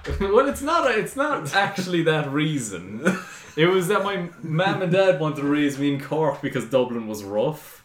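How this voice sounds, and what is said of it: Posh Irish Dublin accent. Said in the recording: “you sound very posh Irish, though. You don't sound like you're from Cork, really ... Posh Dublin”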